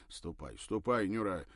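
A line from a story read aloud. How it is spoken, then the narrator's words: Irritated mutter. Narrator (Russian): раздраженно пробурчал он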